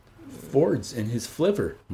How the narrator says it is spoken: murmured DHC

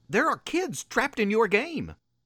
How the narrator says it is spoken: Nick sputtered

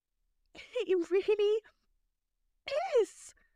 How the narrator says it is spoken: Lavender gasped

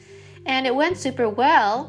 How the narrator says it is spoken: I said cheerfully

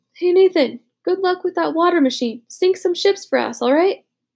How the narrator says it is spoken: Butch called out

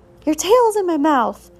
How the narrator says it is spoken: cried one of the ewes

